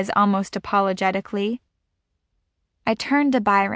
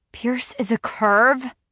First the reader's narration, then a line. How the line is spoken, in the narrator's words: I whisper harshly